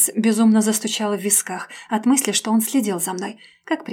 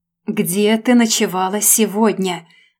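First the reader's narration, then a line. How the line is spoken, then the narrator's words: Growled, heavy presence. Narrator (Russian): Буквально прорычал он, заполняя своей тяжелой энергетикой помещение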